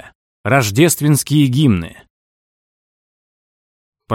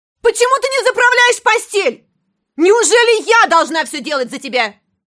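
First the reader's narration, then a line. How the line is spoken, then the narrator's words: Shouting. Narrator (Russian): она орала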